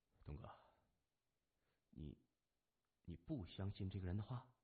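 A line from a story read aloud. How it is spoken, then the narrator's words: Quiet question. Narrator (Chinese): 他小声问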